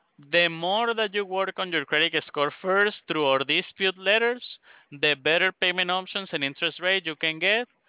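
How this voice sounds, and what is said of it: Strong accent, hard to understand. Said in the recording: “I'm having just a little bit of trouble understanding you ... your accent. I'm having a little trouble understanding you.”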